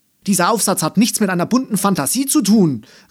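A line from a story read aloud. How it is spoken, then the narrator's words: Called out. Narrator (German): rief Frau Löbner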